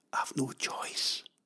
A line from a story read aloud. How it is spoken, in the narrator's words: after a long sigh, whispered